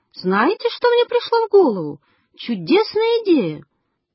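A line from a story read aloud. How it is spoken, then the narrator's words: Exclaimed. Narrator (Russian): Врач воскликнул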